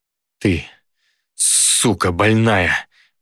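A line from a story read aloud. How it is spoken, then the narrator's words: Growled. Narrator (Russian): прорычал я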